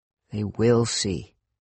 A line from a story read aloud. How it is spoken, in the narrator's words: I muttered